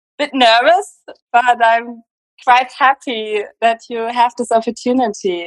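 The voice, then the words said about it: German accent. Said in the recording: “Germany. I hope that's not a problem with the accent. ... I love your accent. It's so exotic.”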